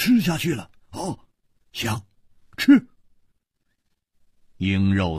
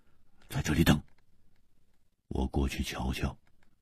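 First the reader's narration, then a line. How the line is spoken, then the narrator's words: Deep, grave voice. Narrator (Chinese): 胡铁花微微变色，沉声说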